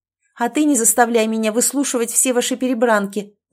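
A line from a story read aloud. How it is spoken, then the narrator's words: Yelled. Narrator (Russian): заорала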